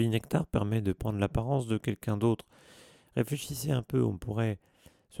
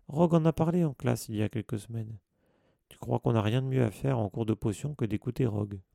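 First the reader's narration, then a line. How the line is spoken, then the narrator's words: Grumbled. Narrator (French): grommela Ron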